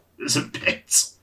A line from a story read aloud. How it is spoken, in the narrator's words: the youth says, choking